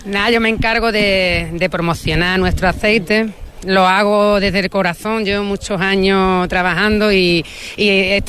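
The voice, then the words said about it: Local Beasain Spanish accent. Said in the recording (Spanish): “Tiene acento y tonito de voz, ese hilo de voz es beasino”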